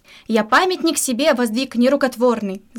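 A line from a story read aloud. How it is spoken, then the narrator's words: Yelling. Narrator (Russian): заорал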